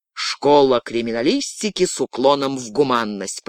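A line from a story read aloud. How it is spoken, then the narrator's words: Grumbling. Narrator (Russian): проворчал Клинк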